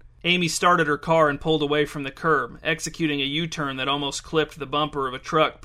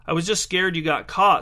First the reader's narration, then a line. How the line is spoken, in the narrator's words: said Amy